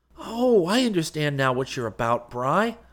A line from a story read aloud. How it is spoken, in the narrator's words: I exclaimed delightedly